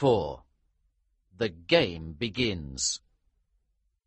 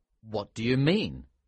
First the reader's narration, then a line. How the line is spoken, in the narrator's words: asked